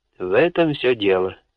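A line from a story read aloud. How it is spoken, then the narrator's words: Dry. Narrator (Russian): сухо произнес лорд Харткорт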